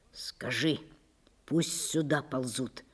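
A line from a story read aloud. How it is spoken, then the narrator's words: Whispered. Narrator (Russian): шепнул он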